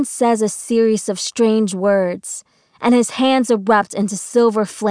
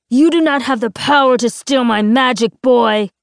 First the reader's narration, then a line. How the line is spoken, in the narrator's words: Moreau shouts